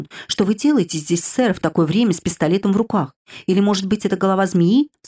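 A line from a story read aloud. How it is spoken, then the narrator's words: Frightened cry. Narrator (Russian): вскричал, испуганно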